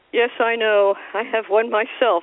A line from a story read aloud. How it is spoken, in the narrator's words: said the younger sister gloomily